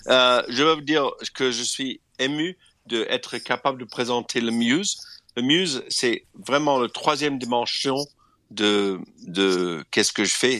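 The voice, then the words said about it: Slight English accent in French. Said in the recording (French): “avec mon accent un peu anglais”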